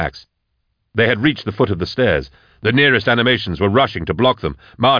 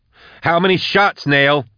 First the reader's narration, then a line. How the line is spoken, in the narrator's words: Max roared